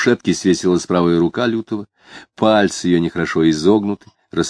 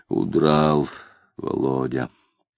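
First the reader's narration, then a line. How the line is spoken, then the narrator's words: Muttering. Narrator (Russian): Макаров, пробормотав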